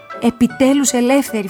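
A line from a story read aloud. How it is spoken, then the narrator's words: Shouting. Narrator (Greek): φωνάζω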